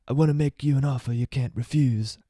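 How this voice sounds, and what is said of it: Bad Godfather impression. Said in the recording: “That was a terrible Godfather impression.”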